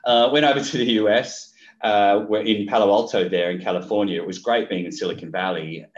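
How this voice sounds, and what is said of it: Australian accent. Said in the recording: “I was Australian, that's where the accent comes from.”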